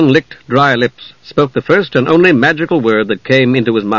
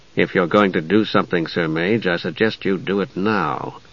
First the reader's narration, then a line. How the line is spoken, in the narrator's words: Steele said softly, grimly